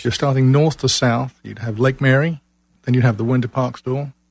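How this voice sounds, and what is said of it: English accent from London. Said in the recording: “you got quite an accent. ... A long, long time ago in a galaxy far away, London, England.”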